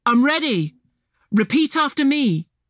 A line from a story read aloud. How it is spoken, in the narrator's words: Alex shouted